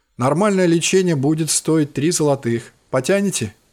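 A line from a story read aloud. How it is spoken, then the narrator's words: Plain. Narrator (Russian): спросила она меня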